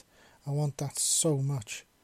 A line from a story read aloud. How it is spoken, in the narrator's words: Gregory stammered in the cutest way Ven could have ever imagined